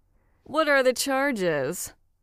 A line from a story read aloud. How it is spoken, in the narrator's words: asked, playing along with a gag